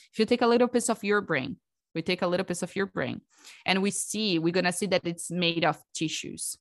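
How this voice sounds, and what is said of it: Non-native accented English. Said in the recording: “it's always mess up in my accent... So hard for me.”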